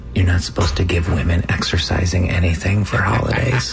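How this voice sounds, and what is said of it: Whispering. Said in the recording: “we're whispering”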